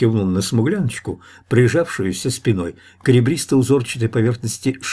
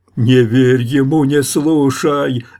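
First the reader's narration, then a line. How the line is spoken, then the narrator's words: Yelled in deep voice. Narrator (Russian): заорала басом смуглянка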